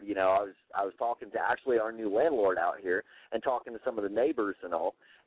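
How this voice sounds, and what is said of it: Strong Southern American accent. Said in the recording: “I've got a big Southern accent”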